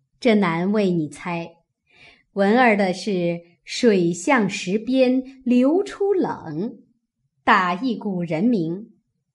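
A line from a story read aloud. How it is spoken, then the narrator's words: Laughing. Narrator (Chinese): 李纨笑道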